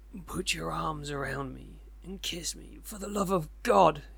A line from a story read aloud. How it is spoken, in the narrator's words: he cried